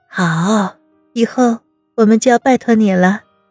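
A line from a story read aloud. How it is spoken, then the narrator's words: Gentle, chuckling. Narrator (Chinese): 温之夏呵呵直笑，柔声道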